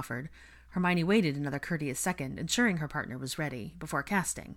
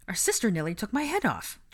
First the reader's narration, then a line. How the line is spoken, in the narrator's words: George said indignantly